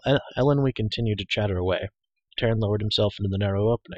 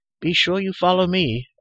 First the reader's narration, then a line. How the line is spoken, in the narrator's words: Ellenwy cried